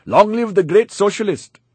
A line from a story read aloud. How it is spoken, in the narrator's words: He shouted